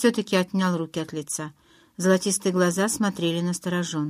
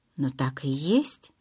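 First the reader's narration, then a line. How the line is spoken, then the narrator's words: Whisper. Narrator (Russian): прошептала я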